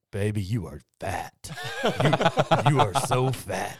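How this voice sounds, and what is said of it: Pretty good impression. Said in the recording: “a pretty good impression of that.”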